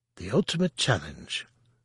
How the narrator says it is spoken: Lumia said again, her voice oddly soft and mournful

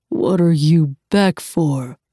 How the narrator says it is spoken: he growled

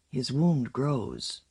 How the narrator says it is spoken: Watuk said in a whisper

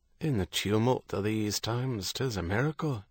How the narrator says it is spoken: Herity said, his voice low

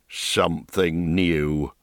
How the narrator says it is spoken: growled the mayor

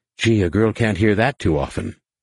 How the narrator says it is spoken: Jaina said dryly

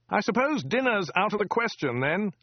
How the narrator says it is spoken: yelled

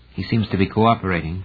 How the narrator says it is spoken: Pogodin said quietly

